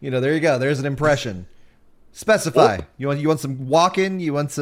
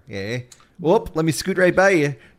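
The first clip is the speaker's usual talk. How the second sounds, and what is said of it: Impression of a Midwesterner. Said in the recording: “I'm impersonating, you know, a Midwesterner”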